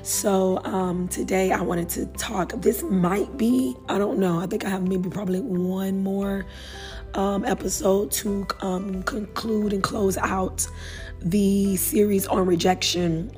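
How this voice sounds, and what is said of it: Hoarse, slightly strained voice. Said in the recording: “my voice is a little hoarse. I did a lot of singing this weekend ... my voice is not 100%”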